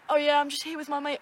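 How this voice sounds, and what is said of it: Put-on British accent. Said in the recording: “I actually put on a British accent ... I can do such a good British accent”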